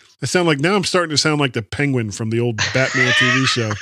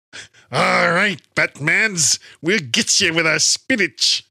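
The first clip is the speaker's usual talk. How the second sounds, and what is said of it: Cartoon Popeye-style character voice. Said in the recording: “do an impression of Popeye doing an impression of the penguin ... of the Batman's penguin”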